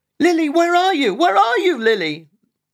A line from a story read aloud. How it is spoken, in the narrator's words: shouted, frantically